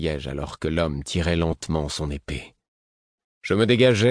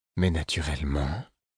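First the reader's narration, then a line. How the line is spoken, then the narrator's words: Suave, smooth. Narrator (French): répondit-elle d'un ton suave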